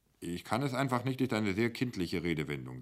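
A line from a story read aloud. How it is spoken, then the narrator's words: Plain. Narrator (German): sagte Humkoke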